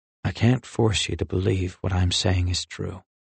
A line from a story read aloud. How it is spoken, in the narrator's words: he said softly